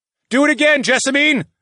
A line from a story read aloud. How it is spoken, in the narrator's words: I yelled